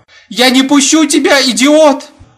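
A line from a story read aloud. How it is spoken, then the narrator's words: Screaming. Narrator (Russian): закричала жена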